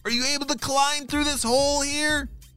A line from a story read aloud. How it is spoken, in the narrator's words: He shouted